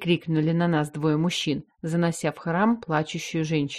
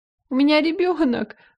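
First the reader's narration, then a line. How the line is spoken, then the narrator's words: Sobbing. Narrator (Russian): рыдала она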